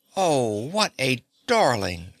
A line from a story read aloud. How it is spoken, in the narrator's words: she cried